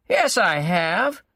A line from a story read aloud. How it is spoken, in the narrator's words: Gerard said happily